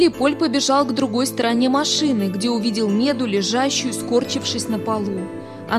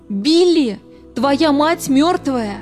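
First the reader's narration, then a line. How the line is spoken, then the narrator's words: Shout. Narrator (Russian): закричала Лоис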